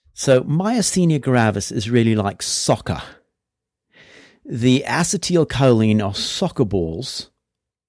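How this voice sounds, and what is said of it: Put-on accent. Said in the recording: “Do you mind if I do this in an accent”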